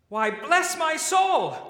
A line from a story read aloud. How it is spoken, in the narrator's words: cried the nephew